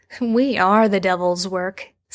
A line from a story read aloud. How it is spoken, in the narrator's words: Sam likes to laugh back